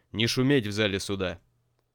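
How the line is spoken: Judge's stern voice. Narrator (Russian): судья вдруг строго произнес

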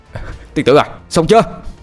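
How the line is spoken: Strained loud shout. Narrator (Vietnamese): Anh Thông dường như sắp quá sức, anh hét lớn

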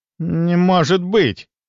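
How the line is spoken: Strained, forced out. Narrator (Russian): наконец выдавил он

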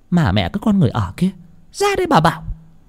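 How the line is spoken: Shrill hiss. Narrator (Vietnamese): mụ rít lên

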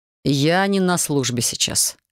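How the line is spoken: Man's wry snort. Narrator (Russian): хмыкнул мужчина

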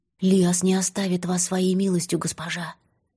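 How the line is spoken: Whisper. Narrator (Russian): Море шепнула

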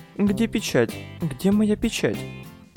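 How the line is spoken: Mumbling. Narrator (Russian): Бормотала

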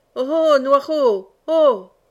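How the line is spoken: Hunter shouting. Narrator (French): cria encore le veneur

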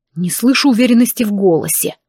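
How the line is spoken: Growled. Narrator (Russian): рыкнул он

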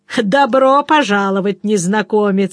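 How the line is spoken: Said, then nasty laughter. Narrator (Russian): сказал и разразился мерзким хохотом

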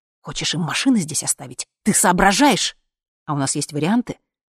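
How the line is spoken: Angry whisper. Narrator (Russian): он сердито зашептал Сереже

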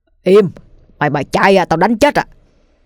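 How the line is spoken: Alarmed shout. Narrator (Vietnamese): Ông Linh như thấy điều chẳng lành, không quên quát lên

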